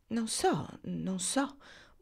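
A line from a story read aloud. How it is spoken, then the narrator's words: Confused murmur. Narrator (Italian): mormorò confusa Olga Down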